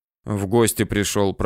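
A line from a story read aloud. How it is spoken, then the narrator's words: Uncertain mumbling. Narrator (Russian): пробурчал, не зная, что теперь делать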